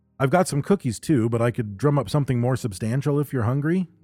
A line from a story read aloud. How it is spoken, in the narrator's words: Josephine said